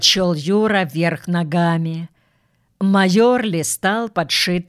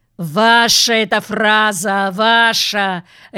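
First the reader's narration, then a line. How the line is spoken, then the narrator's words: Barking. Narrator (Russian): рявкнул майор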